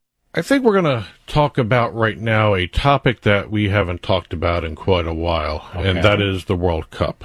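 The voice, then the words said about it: Sarcastic tone. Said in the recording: “As you can tell, I'm being sarcastic with that statement.”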